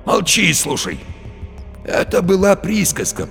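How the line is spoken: Wheezed. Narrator (Russian): просипел Барилла

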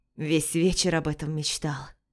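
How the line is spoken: Breathy, against her lips. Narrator (Russian): выдохнул ей в губы Денис

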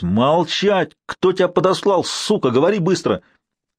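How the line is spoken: Young man's straining yell. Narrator (Russian): Бывший приятный молодой человек заорал, надсаживаясь

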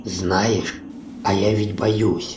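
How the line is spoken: Quiet. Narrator (Russian): тихо проговорила Хон

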